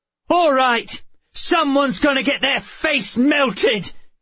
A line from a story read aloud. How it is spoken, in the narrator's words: she yelled